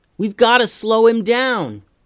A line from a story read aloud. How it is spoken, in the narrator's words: yelled Hallie